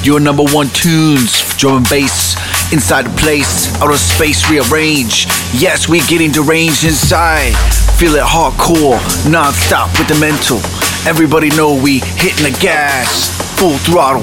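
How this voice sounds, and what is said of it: Rhyming MC-style hype delivery. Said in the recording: “my best rhyme time impression”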